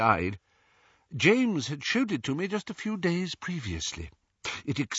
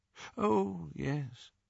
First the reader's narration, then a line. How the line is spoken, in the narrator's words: said Dumbledore faintly